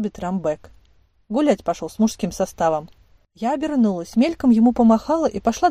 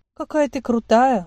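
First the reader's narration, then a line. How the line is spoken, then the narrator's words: Sigh. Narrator (Russian): вздохнула Малин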